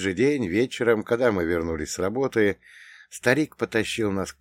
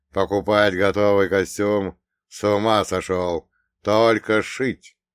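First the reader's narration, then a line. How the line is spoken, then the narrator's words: Firm, unshakable declaration. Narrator (Russian): совершенно непоколебимым тоном заявил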